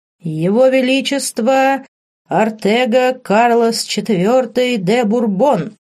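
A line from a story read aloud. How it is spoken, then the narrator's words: Loud clear announcement. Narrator (Russian): Громко и четко разнеслось по залу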